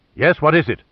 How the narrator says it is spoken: he said irritably

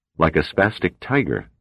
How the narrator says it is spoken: Pitt said

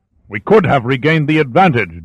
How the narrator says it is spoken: Darius sputtered in pure rage

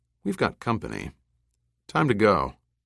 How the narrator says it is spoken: Speaking calmly, said

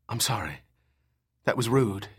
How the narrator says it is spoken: whispered

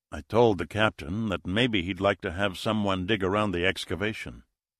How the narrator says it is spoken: Speaking in a low tone so Nina wouldn't hear, he said

